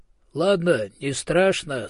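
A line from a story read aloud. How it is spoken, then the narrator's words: Plain. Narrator (Russian): сказал отец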